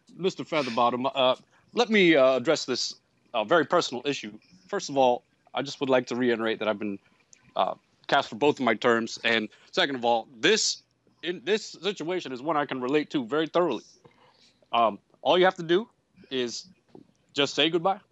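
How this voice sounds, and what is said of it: Barack Obama impression. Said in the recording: “This is Obama impersonator”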